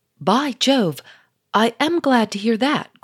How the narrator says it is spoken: cried the Duke

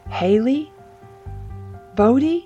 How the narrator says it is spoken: Jessa called out cautiously, her voice wavering with uncertainty

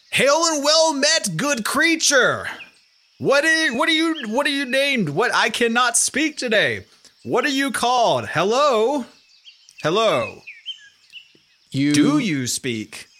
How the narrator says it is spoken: you yell this out

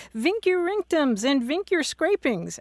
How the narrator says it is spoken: a student walking about with a fresh haircut and shouting

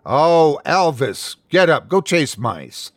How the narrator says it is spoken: she said, popping her gum loudly

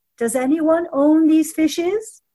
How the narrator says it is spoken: he called out 3 times in a loud voice

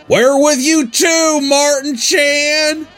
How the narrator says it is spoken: The KKK then all yelled

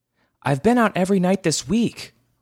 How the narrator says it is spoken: Mama shouted back

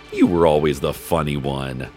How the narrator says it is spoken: His father laughed and said

